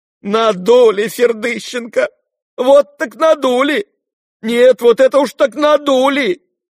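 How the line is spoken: Wailing cry. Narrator (Russian): вскричал плачевным голосом Фердыщенко

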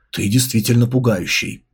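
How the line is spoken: Low murmur. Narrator (Russian): Су Мэй вполголоса проговорила

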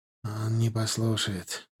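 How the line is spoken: Glum reply. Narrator (Russian): уныло ответил Сергей

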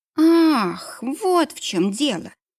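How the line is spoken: Drawling. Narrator (Russian): протянула Вероника

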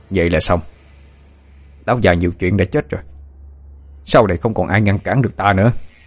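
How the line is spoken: Harsh emphatic voice. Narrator (Vietnamese): Tên Kiên sững người một chút rồi gằn giọng nói

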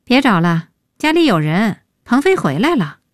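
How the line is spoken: Sigh. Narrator (Chinese): 叹

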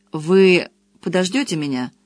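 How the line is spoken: Rather cold question. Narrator (Russian): спросил он довольно холодно

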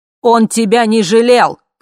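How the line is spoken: Shouting. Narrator (Russian): кричал А

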